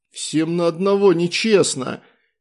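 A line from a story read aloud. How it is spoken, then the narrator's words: Strained, globe speaking. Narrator (Russian): выдавил из себя глобус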